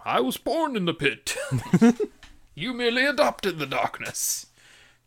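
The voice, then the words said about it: Poor imitation of Bane's voice. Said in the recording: “Terrible Bane impression.”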